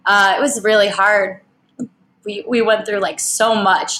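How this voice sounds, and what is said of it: Emotional, choked-up voice. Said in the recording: “oh, I'm getting emotional.”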